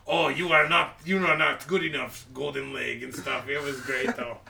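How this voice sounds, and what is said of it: Exaggerated heavy foreign accent. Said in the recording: “I'm reading the subtitles in, like, a hard accent”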